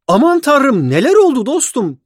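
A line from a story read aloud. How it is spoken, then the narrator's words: Cried out. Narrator (Turkish): diye haykırdı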